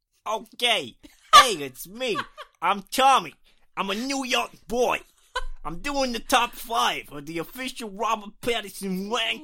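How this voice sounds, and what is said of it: Put-on New York accent. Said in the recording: “Shall I do a New York accent”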